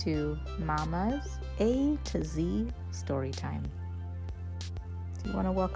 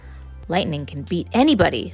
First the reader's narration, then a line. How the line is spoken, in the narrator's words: said excitedly